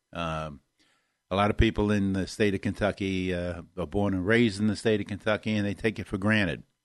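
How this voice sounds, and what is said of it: Northern Kentucky accent. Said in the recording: “I have that northern Kentucky accent ... it's hard for a lot of people to understand me sometimes”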